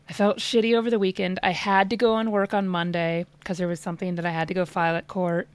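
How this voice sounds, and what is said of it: Raspy, hoarse voice. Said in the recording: “you can probably tell like I'm still a little bit raspy and I'm still coughing quite a bit ... your voice is sexy”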